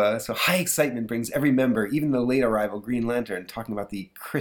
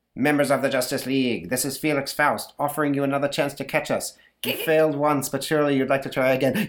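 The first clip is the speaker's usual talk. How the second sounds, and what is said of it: High falsetto villain character voice. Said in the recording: “Yes, I'm doing a fake Felix Faust voice. ... the Felix falsetto.”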